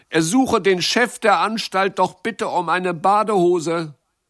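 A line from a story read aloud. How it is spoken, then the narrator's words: Calling out. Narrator (German): rief Jacques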